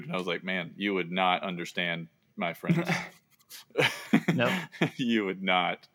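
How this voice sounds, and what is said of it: Mild Southern American accent. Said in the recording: “I have a Southern accent, but it's not even close to a thick Southern accent ... you really sound Southern”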